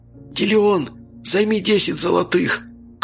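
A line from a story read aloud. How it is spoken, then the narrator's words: Loud whisper. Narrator (Russian): Громко прошептал вампир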